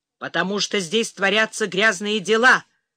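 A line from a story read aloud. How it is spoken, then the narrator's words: Angry growl. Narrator (Russian): прорычал Гелий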